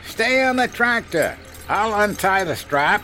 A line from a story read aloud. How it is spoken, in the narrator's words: Henry cupped his hands over his mouth and yelled